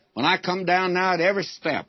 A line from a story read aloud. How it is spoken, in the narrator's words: I groan